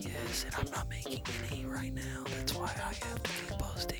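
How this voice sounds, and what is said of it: Whispering. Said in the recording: “stop whispering? ... cancel the whispering”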